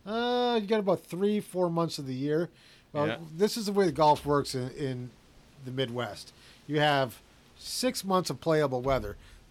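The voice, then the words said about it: Upper Midwest accent, Canadian-sounding. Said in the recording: “From Canada, with that accent, yeah? ... Upper Peninsula of Michigan.”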